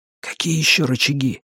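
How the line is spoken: Whispered question. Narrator (Russian): шепотом спросил Сомик

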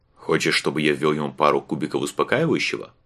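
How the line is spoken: Plain question. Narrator (Russian): спросил Ворон

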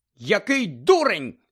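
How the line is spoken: Shouted. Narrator (Ukrainian): закричала професорка МакГонагал

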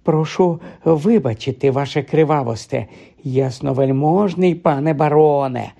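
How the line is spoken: Fawning, flattering voice. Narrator (Ukrainian): заговорив він улесливим голосом

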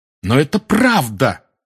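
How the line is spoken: Exclaimed. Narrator (Russian): воскликнул Гарри

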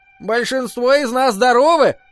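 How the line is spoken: Shout. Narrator (Russian): крикнула милашка Терри Пикфорд

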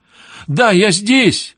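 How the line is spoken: Piercing scream. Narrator (Russian): пронзительно завопила Сандра

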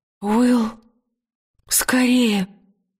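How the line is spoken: Gasping, strained. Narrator (Russian): выдавила Лира, судорожно глотая воздух

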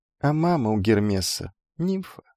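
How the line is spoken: Slightly sad. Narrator (Russian): немного грустно сказал Пустышка

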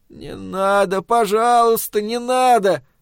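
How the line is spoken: Childlike plaintive pleading. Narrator (Russian): по-детски жалобно протянул

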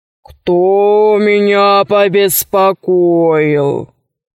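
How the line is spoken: Terrible wailing, genie. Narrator (Russian): возопил джин страшным голосом

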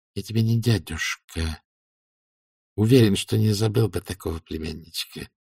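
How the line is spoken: Through gritted teeth. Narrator (Russian): процедил лорд Фельмет

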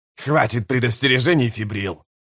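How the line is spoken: Snapping retort. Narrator (Russian): огрызнулся Ками стрелой

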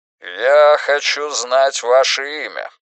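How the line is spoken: Commanding repetition. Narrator (Russian): властным голосом повторил Рейдмахер

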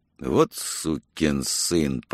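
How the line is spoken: Not very quiet. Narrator (Russian): произнес тот не так уж тихо

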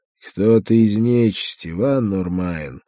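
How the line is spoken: Muffled hollow voice. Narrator (Russian): глухо произнес Павел

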